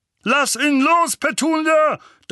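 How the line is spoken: Thundering. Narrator (German): donnerte Onkel Vernon

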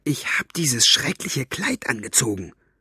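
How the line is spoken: Hiss. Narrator (German): zischte sie

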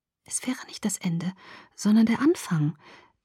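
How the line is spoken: Quiet contradiction. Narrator (German): widersprach ich leise

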